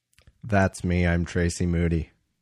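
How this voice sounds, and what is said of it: Very low-pitched impression of co-host. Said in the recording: “I'm trying to do an impression of you ... Just go as low as I can ... it is exactly you”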